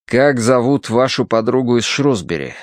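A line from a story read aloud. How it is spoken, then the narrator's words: Plain. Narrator (Russian): спросил Дануорти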